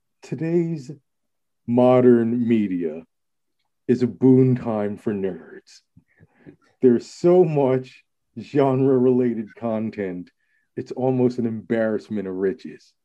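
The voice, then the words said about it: Malcolm Gladwell impression. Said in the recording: “doing his Malcolm Gladwell voice”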